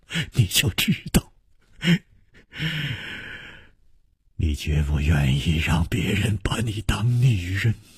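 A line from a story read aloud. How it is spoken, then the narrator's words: Laughing. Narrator (Chinese): 楚留香笑着说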